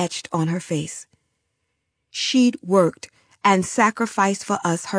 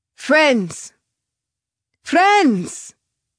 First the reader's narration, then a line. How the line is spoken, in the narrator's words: he shouted